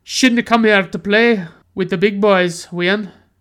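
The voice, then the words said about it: Thick Scottish accent, hard to understand. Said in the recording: “this guy with this super thick Scottish accent says ... it's so completely incoherent. It's like you can't even understand what he's saying”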